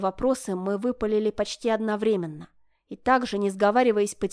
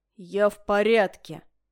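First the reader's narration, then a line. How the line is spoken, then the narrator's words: Through gritted teeth. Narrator (Russian): процедил сквозь зубы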